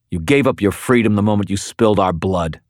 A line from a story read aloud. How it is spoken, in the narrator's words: I snarled